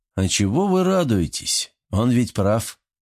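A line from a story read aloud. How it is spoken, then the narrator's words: Muttering. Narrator (Russian): пробормотал Кинг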